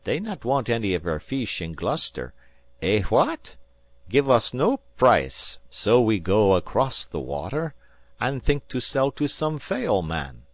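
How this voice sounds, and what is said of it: Gentle voice, broken English. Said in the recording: “said Manuel in his gentle voice.”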